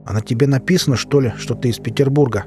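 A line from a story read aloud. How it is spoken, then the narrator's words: Driver grumbling. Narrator (Russian): проворчал возница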